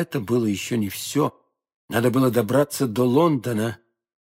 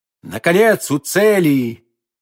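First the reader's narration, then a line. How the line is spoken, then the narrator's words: Shouting. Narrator (Russian): Д'Артаньян закричал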